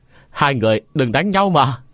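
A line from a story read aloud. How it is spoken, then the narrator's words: Child crying out loudly. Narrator (Vietnamese): thằng nhóc … lớn tiếng kêu to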